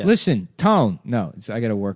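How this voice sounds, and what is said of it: Imitates another person's voice, unpolished. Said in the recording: “I wish I could do a Joey Pants impression. ... Trying an impression that I haven't figured out yet”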